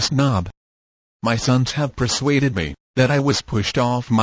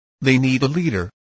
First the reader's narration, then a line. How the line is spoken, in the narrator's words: replied Hare, sharply